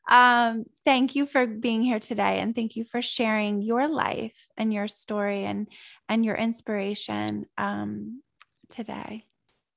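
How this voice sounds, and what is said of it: Teary, emotional voice. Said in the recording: “I just got a little teary again”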